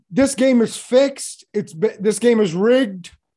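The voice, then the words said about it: Poor impression of a politician. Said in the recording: “That is the worst. That's equal to the worst impersonation I've ever heard.”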